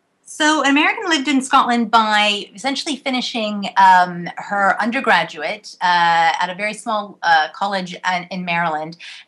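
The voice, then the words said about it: American accent. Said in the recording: “you've certainly not lost your accent... people often think I sound more British than American anymore”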